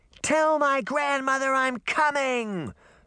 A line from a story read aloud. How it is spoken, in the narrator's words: Red Riding Hood shouted